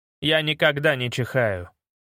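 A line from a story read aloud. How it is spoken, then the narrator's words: Calm. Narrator (Russian): спокойно ответил Мантрот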